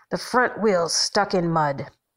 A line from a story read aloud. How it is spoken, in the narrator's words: the man says, in his soft growl